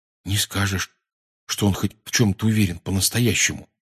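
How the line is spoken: Quiet. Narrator (Russian): тихонько сказал Рон

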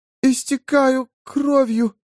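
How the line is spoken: Squeaky trembling voice. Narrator (Russian): сказала она писклявым, дрожащим голосом

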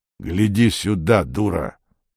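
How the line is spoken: Plain. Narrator (Russian): сказала левая голова

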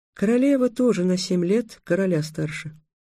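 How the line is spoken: Sad. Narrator (Russian): печально сказала Тиана

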